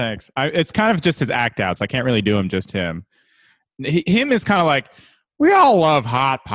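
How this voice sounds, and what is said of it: Usual voice. Nothing is said of it.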